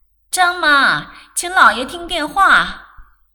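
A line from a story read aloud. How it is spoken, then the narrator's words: Woman calling loudly from upstairs. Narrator (Chinese): 姨太太在楼上高声叫道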